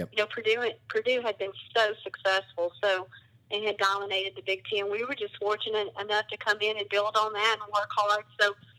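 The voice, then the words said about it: Southern American accent. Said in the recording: “You can tell with this accent, moving from the South”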